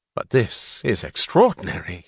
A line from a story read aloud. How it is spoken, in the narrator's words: he said, in the joyous, astonished tone of announcing some news she had not expected